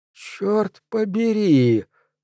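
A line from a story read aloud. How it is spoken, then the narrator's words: Whisper. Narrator (Russian): прошептал Док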